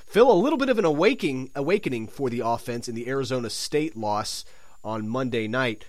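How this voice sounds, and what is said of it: Sick, under-the-weather voice. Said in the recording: “my voice sounds a little under the weather. I've been feeling a little sickly lately”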